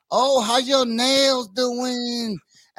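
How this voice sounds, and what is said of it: Put-on Vietnamese accent. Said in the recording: “You just nailed that Vietnamese accent”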